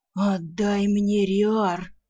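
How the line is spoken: Rough man growling rudely. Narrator (Russian): Куда менее любезно прорычал мужик

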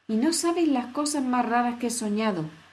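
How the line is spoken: Exclaimed. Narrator (Spanish): exclamó Alicia

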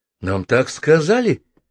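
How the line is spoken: Confused answer. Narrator (Russian): растерянно ответил Двинятин

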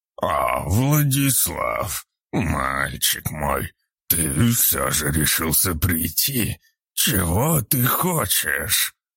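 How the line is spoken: Old man's wheeze. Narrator (Russian): прохрипел один из стариков

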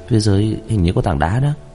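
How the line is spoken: Muttering. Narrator (Vietnamese): Kỳ thần lẩm bẩm

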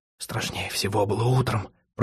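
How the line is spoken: Whisper. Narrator (Russian): прошептал он

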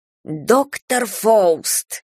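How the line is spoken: Irritated female hiss from behind. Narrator (Russian): раздраженно шипит из-за спины женский голос

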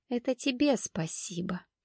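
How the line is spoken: Whisper. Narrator (Russian): прошептала торговка

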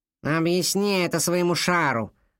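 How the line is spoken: Irritated grumble. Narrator (Russian): проворчала Кадабра, все еще раздраженная, ведь шар не светился и не дрожал

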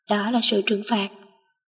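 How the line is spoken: Satisfied whisper in ear. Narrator (Vietnamese): Lãnh Hàn thỏa mãn thì thào bên tai cô

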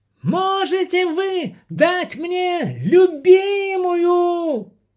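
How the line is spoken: Yelling at top of lungs. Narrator (Russian): заорал Антон во всю глотку

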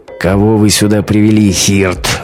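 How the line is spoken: Menacing growl. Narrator (Russian): грозно прорычал он

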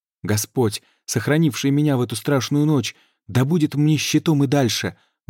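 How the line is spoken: Exclamation. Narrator (Russian): воскликнул рыцарь

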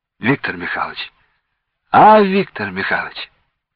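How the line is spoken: Quiet, suppressing breathlessness. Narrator (Russian): Подавляя подступающую одышку, негромко спросил

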